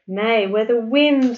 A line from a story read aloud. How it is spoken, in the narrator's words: laughed Satsuki